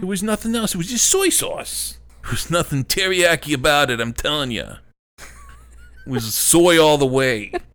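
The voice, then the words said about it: Put-on New York accent. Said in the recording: “slipping back into our, like, New York accent?”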